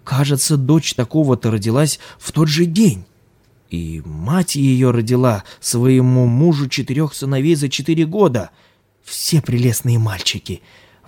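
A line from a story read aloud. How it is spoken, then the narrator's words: Woman exclaiming from distance. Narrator (Russian): воскликнула жена земледельца, сидевшая в тени поодаль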